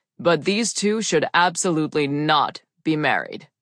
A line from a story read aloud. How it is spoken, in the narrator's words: he said in a smooth, deep voice